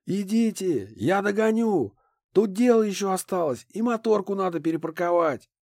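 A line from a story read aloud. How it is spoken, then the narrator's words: Shout. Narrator (Russian): крикнул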